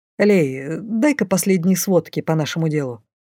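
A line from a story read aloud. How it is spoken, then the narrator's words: Curt, clipped. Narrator (Russian): маг отрывисто бросил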